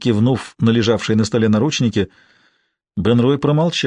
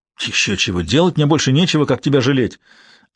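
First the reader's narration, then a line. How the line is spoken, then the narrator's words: Irritated snap. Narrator (Russian): огрызнулся Бен-Рой, раздраженный вопросом парня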